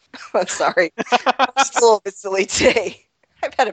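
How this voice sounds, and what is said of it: Usual voice. Nothing is said of it.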